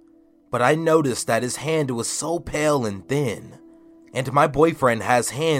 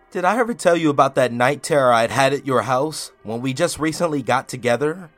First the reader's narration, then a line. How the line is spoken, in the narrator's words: I asked him with a little laugh